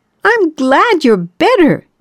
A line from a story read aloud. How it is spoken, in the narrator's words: yelled Yaroslava